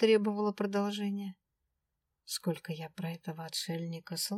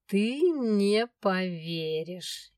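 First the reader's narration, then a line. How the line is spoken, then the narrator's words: Sly drawl. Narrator (Russian): ехидно протянул дракон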